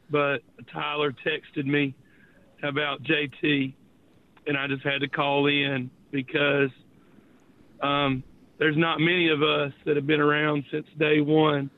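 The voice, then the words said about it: Hoarse, nearly gone voice. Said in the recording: “My voice is gone. I've got like an upper respiratory thing going on.”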